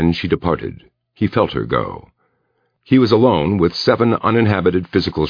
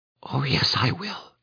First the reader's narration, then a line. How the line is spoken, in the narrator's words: Anne Hawthorne said faintly